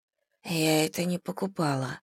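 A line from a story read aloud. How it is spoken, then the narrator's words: Mumbled. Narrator (Russian): пробормотала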